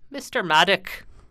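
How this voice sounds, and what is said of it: Put-on Irish accent. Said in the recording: “I don't know why I was Irish ... should have been Scottish”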